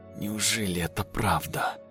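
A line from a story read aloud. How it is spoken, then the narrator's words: Whisper. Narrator (Russian): прошептал я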